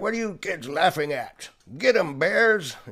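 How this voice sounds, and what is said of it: Grumpy old man voice. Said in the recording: “You like my old man voice?”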